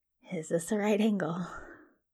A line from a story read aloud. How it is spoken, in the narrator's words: Crowley murmurs